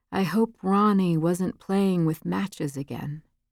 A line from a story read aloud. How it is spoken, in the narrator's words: She spoke so softly, Shirley had trouble hearing what she said next